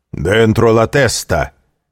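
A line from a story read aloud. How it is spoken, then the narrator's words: Stern commanding shout. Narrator (Russian): крикнул строгий и властный голос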